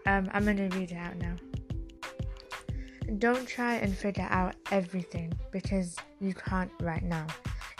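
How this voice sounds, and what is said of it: Unwell, sounds different from usual. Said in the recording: “my voice sounds kind of weird. I feel like it sounds very different to how I normally speak. But I'm a little bit ill”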